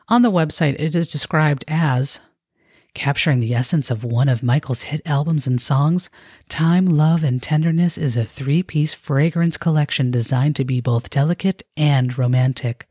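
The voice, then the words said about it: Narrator voice. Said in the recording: “do my central narrator voice because I can't speak in my normal tone”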